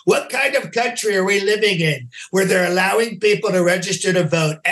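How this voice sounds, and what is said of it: Imitates another person's voice. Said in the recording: “actor, writer, impersonator.”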